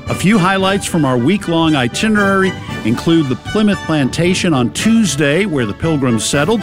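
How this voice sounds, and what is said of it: Boston accent. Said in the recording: “That's right, it's a Boston accent.”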